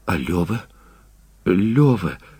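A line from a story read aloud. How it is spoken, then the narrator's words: Whisper. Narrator (Russian): прошептала она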